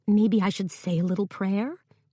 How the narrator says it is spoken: Ava asked

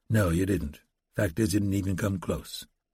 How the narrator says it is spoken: ranger said quietly

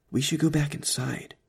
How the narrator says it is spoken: whispered

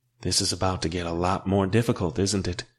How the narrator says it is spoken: she asked quietly

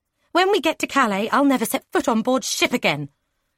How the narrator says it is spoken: Isabel snapped

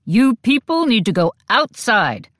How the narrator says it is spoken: an officer barked

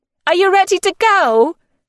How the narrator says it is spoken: she shouted to Figgy

